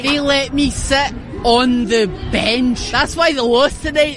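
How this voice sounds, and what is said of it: Scottish accent, like Fat Bastard. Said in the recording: “Scottish pheromones ... that might be the hottest accent in a woman I've ever heard ... she talks exactly like Fat Bastard from Austin Powers”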